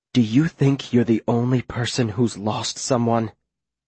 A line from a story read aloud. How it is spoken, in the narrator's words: She says in a dangerous whisper